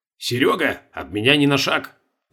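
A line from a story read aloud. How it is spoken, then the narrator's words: Clipped, through teeth. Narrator (Russian): процедил Колобков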